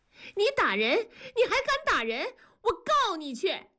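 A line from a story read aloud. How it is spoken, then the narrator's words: Frantic shout. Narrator (Chinese): 梅梅跳着脚喊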